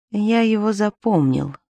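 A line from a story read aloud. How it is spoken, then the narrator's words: Quiet answer. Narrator (Russian): тихо ответил Лыков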